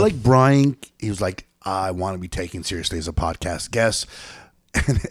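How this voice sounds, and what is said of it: Usual voice. Nothing is said of it.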